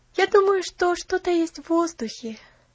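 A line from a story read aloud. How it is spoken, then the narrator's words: Happy sigh. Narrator (Russian): счастливо вздохнула Поллианна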